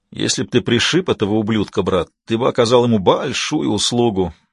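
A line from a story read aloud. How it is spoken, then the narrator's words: Muttering sergeant. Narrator (Russian): буркнул сержант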